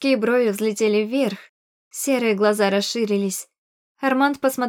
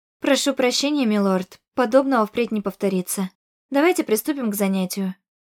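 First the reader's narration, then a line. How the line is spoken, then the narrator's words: Matter-of-fact tone. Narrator (Russian): вымолвила будничным тоном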